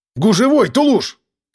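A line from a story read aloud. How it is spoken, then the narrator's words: Shout. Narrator (Russian): крикнул я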